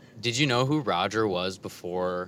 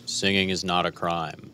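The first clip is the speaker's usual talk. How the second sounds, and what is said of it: Imitates another person's voice. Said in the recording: “do an impression of Roger... That is beautiful. Spot on.”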